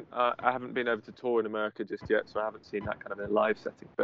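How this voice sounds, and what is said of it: Non-American English accent. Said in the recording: “your accent, right? Especially us idiots here in America ... the kind of reaction of Americans to my accent”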